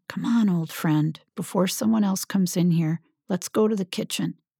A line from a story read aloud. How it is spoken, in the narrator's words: she whispered in her ear